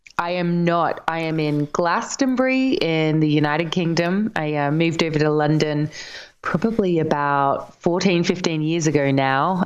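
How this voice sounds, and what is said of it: Slight Australian accent. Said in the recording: “I love that accent. I can pick up a bit of Aussie there”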